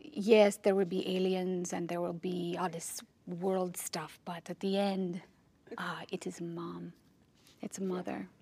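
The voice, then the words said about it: Bad put-on accent. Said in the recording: “I can't talk about Denis without doing that bad accent.”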